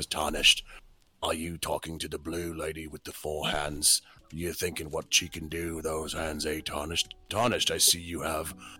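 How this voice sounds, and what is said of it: Video game character voice impression. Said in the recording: “that does the impression for Sir Gideon Ofnir ... my best Gideon off the air impression”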